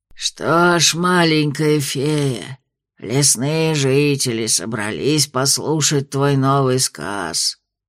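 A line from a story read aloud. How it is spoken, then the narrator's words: Creaky voice. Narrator (Russian): проскрипел Краунд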